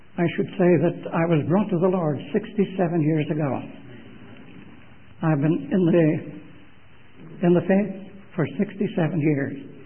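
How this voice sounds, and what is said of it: Irish accent. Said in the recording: “by my accent that I happen to be an Irishman”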